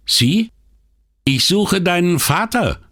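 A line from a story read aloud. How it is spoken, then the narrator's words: Called back. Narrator (German): rief Brunetti zurück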